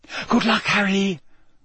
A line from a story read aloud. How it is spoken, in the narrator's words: Hermione whispered